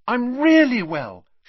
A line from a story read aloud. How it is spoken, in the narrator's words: she said happily